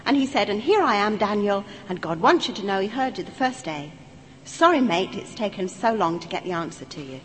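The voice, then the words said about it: East London Cockney accent. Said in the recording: “In my language, because I'm an East Ender, you see. ... I come from the East End of London”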